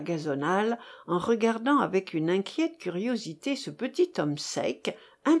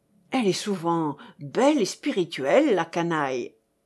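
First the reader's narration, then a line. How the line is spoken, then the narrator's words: Exclaimed. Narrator (French): s'écria Léon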